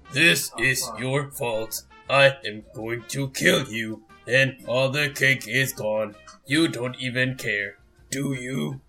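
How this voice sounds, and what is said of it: Imitates a character's voice. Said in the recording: “That was Bonesaw and GLaDOS. ... I thought you were doing Macho Man Randy Savage as GLaDOS doing the voice.”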